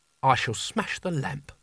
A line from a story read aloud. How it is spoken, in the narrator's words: she said quietly